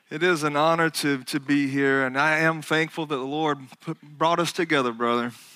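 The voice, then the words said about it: Alabama Southern accent. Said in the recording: “obviously you could tell by my accent, I am from Alabama”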